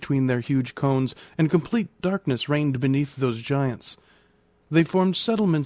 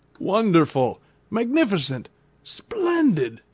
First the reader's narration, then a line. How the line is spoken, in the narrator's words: cried my uncle